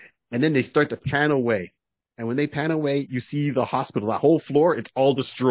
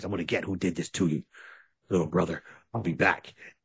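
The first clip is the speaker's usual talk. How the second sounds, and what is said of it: Raspy Jason Statham impression. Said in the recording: “Jason's got that raspy voice.”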